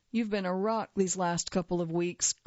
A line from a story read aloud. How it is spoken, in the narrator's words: Colbert said